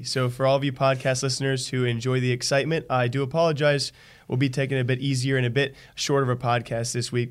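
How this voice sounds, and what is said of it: Strained, worn-out voice. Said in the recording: “my voice has been taking a beating”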